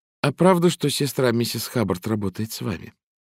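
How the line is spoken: Timid young woman. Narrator (Russian): девушка робко спросила

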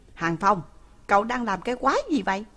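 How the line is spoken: Shout. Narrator (Vietnamese): Lãnh Kính Hàn vừa quát một tiếng

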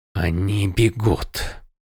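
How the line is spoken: Amazed whisper. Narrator (Russian): прошептал Малфурион, пораженный успехом своего отряда

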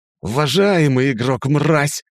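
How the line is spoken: Yelled. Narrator (Russian): заорал Алдариэль

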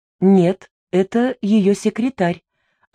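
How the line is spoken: Plain. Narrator (Russian): ответила женщина

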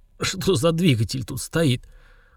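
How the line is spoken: Strained hoarse wheeze. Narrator (Russian): Чувствуя, как растет давление и явно спадать не собирается, я с трудом прохрипел

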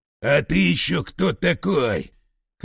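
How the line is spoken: Hoarse bark. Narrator (Russian): Хрипло рявкнул Семен

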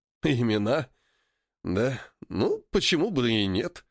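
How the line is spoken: Chuckling. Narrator (Russian): хохотнул Поля

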